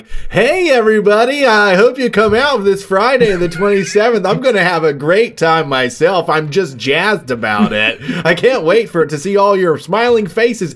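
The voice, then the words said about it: Forced cheerful customer-service voice. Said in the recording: “forced customer service voice”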